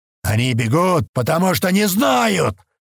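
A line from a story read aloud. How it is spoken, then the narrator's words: Sudden yell. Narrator (Russian): Вдруг заорал Сивен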